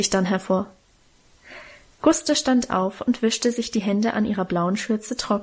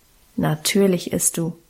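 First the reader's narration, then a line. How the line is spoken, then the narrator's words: Calm, firm. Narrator (German): bestimmte Guste ruhig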